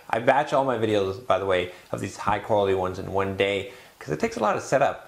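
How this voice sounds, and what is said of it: Slightly tired voice. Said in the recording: “my voice is a little tired”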